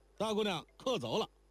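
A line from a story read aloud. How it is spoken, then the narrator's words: Shouted. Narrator (Chinese): 那打更的伙计向楼上喊道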